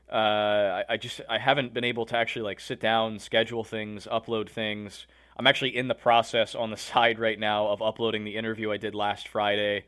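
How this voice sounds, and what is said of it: Slightly hoarse voice. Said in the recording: “I fell under the weather, and I'm still not feeling great today ... My throat's a little bit hoarse”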